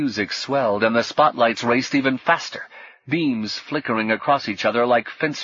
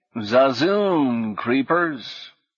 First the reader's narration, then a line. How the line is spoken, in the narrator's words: drawled